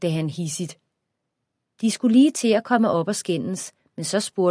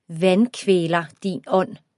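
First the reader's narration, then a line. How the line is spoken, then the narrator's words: Plain. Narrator (Danish): sagde Frank K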